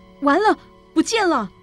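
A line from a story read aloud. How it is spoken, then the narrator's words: Sudden shout. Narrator (Chinese): 突然喊了声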